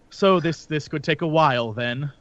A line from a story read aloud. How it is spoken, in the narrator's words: I sort of give like a sigh, like an angered sigh, and I'm like